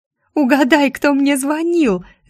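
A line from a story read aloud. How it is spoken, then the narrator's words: Shrieking into phone. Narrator (Russian): завизжала она в трубку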